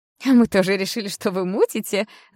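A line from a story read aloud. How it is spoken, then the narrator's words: Laughing. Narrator (Russian): засмеялась Окс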